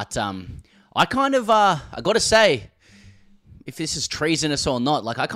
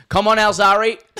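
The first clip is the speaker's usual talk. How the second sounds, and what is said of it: Yelled in a broad Australian accent. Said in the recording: “yelled out in the most Aussie accent”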